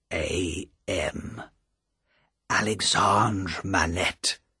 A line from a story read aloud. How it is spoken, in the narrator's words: said Defarge softly